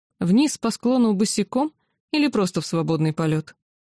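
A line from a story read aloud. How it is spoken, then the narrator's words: Amused snort. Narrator (Russian): хмыкнув, сообщил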